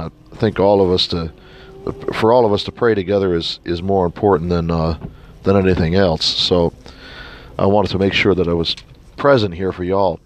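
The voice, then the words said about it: Sick, under-the-weather voice. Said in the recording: “As you can probably hear in my voice, I've come down with a little something”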